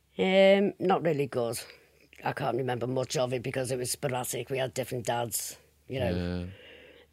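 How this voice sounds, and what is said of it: Strong Liverpool accent. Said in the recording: “you've got a very strong Liverpool accent”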